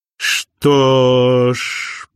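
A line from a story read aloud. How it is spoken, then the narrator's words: Sly drawl. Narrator (Russian): протянул Винс с хитрой ухмылкой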